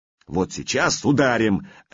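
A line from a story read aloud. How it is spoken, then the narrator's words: Bark. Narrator (Russian): рявкнул Устах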